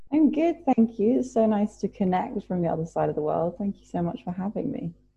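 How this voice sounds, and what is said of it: British accent. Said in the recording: “it's so nice to hear another British accent”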